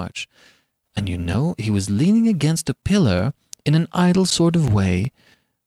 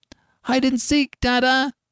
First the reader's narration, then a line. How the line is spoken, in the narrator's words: cried Jip